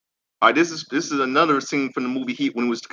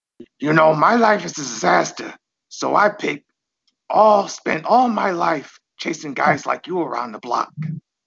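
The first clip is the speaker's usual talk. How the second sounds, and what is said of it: Imitates another person's voice. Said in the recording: “good Al Pacino impression”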